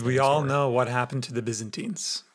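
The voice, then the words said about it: Ominous, foreboding tone. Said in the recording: “in a foreboding voice”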